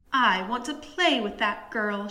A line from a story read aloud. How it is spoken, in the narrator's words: she cried